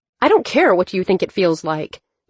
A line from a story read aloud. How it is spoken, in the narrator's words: Dylan said sharply